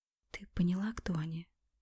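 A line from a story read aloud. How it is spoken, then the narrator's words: Whispered in ear. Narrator (Russian): прошептала на ухо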